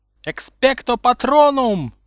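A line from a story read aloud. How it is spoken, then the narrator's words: Screaming. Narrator (Russian): завопил Гарри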